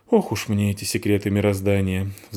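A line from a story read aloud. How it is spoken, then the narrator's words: Sighed. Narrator (Russian): вздохнула Фаль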